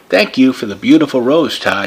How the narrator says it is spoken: she said

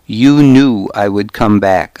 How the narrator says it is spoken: I said

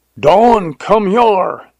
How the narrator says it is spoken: yelled Jones

